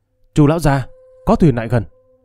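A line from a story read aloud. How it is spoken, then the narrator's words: Loud raised call. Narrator (Vietnamese): một tên thuyền công cao giọng kêu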